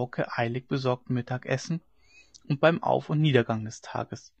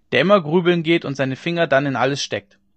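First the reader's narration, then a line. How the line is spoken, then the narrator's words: Calling out. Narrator (German): rief einer von den Gestleuten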